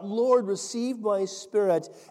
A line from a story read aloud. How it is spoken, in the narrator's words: as they were stoning, he called out